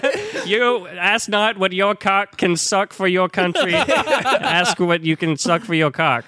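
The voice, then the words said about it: Put-on Boston accent impression. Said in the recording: “Boston? ... JFK. ... Great Canadian accent.”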